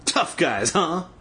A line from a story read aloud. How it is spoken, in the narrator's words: Bobby sneered